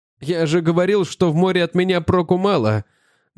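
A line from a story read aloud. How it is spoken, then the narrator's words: Trembling voice. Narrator (Russian): дрожащим голосом сказал Мэтьюс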